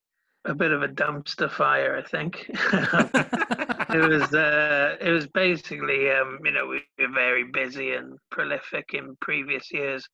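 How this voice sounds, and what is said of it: Welsh accent. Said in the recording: “it's lovely to have a Welshie on the show. ... I love the Welsh accent very much.”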